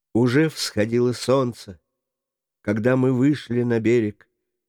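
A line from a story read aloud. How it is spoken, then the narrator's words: Willing, with deep sigh. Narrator (Russian): охотно ответил молодой, глубоко вздохнув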